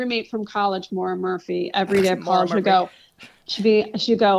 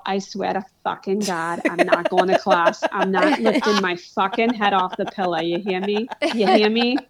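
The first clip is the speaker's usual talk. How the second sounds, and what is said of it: Imitated Boston accent. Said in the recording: “I love that accent so much ... they grew up in Boston proper”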